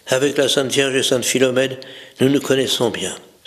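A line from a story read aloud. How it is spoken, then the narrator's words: Softened tone. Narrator (French): d'un ton radouci, il ajouta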